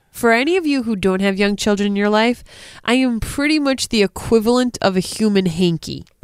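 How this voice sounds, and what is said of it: Stuffy-nosed voice, Rhode Island accent. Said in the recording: “a stuffy-nosed Rhode Island accent.”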